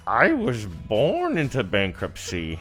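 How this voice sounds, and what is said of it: Poor Bane impression. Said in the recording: “do a decent Bane impression ... terrible. It's so bad. ... a pretty good Bane ... That was awful.”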